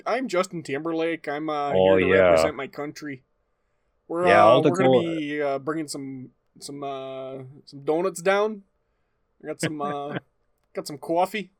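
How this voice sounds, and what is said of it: Put-on Canadian accent. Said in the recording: “what's a Canadian accent? Basically just a Wisconsin accent. ... speak with your real voice.”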